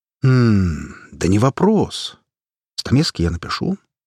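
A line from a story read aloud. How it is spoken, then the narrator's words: Thoughtful. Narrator (Russian): задумчиво ответил я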